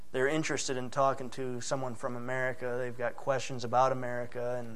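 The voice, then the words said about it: American English accent. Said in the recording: “they liked my accent, being an American. You know, I wasn't trying to pull off the Scottish accent.”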